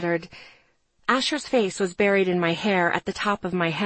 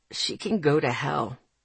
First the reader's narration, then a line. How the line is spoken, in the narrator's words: he mumbled back